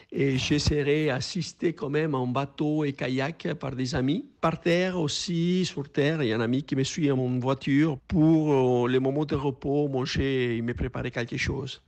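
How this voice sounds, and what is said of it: Uruguayan accent in French. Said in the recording (French): “son accent uruguayen”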